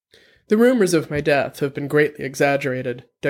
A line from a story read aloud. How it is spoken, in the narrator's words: Dex quoted